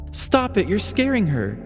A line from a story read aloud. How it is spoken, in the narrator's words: Margaret exclaimed